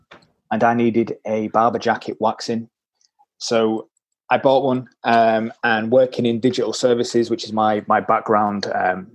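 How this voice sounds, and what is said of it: Yorkshire accent. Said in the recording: “I am a tight Yorkshireman, as you can probably tell by my accent.”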